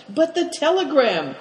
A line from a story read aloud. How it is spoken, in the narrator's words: cried Cao Chang